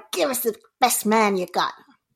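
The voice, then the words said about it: Put-on American accent. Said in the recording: “With a better American accent than that. ... Quite good.”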